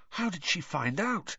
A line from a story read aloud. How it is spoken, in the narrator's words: he whispered